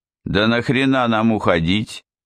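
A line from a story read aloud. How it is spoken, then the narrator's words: Loud, sincerely astonished. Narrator (Russian): Искренне и очень громко изумился одноглазый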